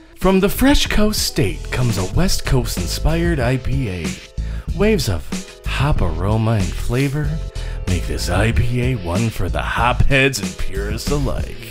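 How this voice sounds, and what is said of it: Announcer-style radio voice. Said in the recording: “do my radio voice ... read it like Brad”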